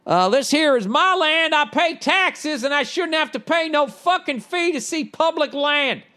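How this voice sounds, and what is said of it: Bad put-on Southern accent. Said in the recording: “I'll do my bad Southern accent.”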